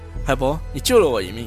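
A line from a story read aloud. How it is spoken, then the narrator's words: Smiling. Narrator (Chinese): 我笑着说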